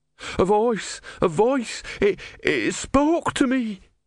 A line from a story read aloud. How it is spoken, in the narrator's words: he wailed